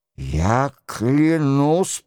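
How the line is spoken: Grumble. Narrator (Russian): проворчал Роншероль

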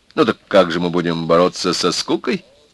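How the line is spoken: Cheerful question. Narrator (Russian): Весело спросил Володя

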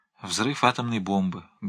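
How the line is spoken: Sad. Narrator (Russian): грустно сказал Пнин

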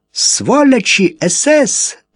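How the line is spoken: Ringing indignant shout. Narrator (Russian): звонким, негодующим голосом закричала она на немцев

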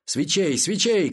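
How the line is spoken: Shouting. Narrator (Russian): крикнул

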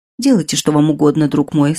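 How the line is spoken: Sad. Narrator (Russian): сказала Нанона печально

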